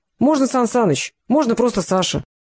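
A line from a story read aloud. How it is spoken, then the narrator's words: Cheerful reply. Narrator (Russian): весело отозвался мужчина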